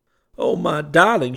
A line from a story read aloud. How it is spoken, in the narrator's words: cried